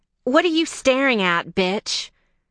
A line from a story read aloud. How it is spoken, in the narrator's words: Feeling herself under scrutiny by the open-mouthed clerk, she snapped